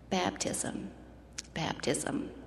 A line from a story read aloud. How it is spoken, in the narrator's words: in almost a whisper replied